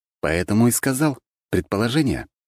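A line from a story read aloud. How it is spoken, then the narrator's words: Calm. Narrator (Russian): спокойно заметил я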